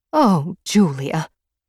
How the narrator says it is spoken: Mom said, her voice filled with emotion

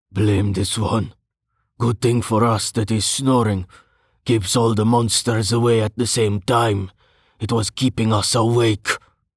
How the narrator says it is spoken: Brovos grunted

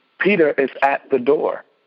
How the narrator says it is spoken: she was overjoyed, so she ran back, exclaiming

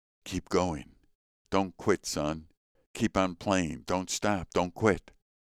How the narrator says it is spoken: Paderewski kept whispering in the boy's ear

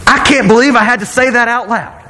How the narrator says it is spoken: I yelled out of just exasperation

